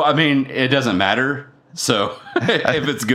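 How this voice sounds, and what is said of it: Usual voice. Nothing is said of it.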